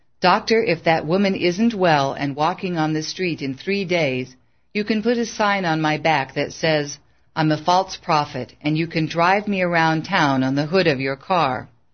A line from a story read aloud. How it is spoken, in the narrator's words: Calmly, Bill returned